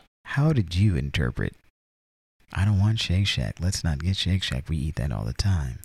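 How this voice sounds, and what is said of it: Usual voice. Nothing is said of it.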